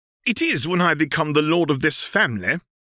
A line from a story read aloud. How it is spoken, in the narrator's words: the man countered irritably